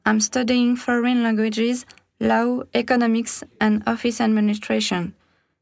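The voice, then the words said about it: French accent speaking English. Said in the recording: “English accents from around the world ... I'm French”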